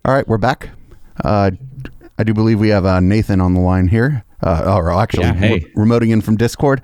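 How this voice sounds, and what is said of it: Strained, worn-out voice. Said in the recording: “my voice is a little shot”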